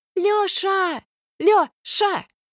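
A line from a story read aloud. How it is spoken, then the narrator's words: Yelling through cupped hands. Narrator (Russian): вопит Алька, всомкнутые в рупор руки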